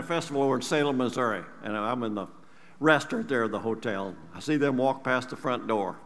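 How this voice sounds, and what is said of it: Usual voice. Nothing is said of it.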